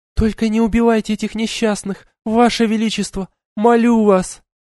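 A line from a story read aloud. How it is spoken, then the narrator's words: Pleading. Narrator (Russian): взмолилась Айлани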